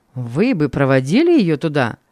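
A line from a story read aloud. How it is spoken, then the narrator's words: Happy question. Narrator (Russian): спросил он радостно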